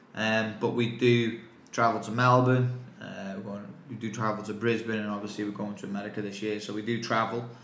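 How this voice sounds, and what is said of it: English accent. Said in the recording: “my English accent”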